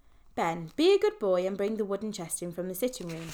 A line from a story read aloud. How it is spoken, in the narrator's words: said Uncle Jerome, still chuckling